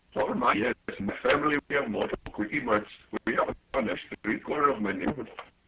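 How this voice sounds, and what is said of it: Put-on foreign accent. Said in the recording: “I love the accent”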